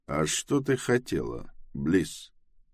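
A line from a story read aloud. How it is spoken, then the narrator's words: Calm. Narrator (Russian): спокойно ответил Тревис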